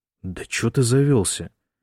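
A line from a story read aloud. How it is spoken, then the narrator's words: Guilty grumble. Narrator (Russian): виновато буркнул Бран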